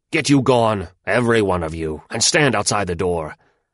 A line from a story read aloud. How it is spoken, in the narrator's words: Wong the tiger … he roared at them